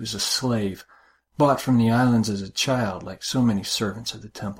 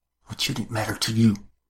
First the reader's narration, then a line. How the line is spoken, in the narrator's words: Her voice was low, as cutting as the sacrificial knife